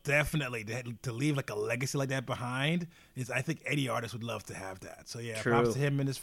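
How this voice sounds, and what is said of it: Usual voice. Nothing is said of it.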